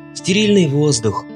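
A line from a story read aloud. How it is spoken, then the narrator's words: Plain. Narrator (Russian): ответил Депре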